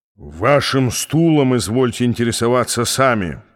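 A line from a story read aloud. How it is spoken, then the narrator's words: Growl. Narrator (Russian): прорычал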